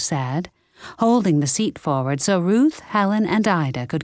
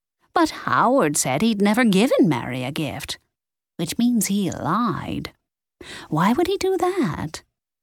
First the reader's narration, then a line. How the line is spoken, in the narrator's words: Ida chuckled